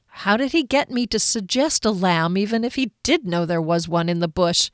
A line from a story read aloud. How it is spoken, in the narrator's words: Kier said crossly